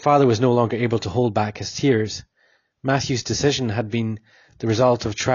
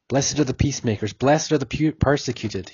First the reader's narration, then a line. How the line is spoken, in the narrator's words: he muttered